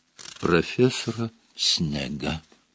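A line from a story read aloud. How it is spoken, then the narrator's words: Whisper. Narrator (Russian): Невилл шепотом произнес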